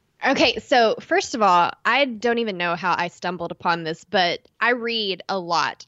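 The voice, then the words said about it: East Texas accent. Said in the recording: “my East Texas accent”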